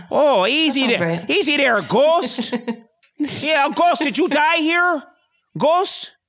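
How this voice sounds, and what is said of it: Put-on Upper Midwest Fargo-style accent. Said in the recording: “kind of like a Fargo accent ... That's more like Fargo ... That's more Wisconsin ... That's like the Adair accent”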